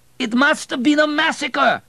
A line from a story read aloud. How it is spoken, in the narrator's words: screamed Abel in anger